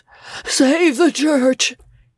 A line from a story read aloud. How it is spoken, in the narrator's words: he cried out faintly